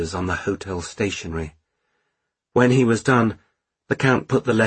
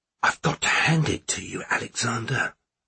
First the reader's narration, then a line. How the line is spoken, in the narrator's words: whispered Ossip